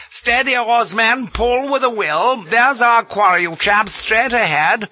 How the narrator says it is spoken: Brooke was yelling

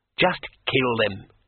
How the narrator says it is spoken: she said sharply

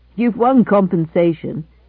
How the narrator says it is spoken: laughed Gibson

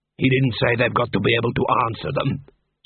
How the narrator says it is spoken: said Cuddy, grimly

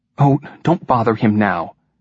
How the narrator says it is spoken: said Jean anxiously, and with a little too much haste

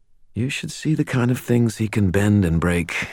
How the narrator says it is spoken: I said

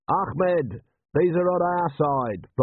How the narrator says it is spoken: Vimes yelled

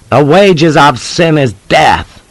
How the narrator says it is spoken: Jeb cried out piously

